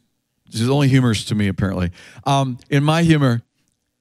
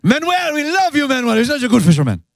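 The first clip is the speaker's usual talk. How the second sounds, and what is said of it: Put-on Spanish accent. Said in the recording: “I like to even speak in a Spanish accent when we talk to Manuel.”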